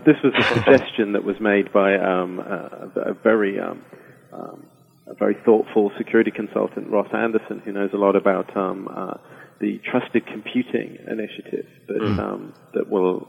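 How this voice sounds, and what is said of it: British accent. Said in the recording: “just to be fair to the British government, and you know, that's not just because of my accent.”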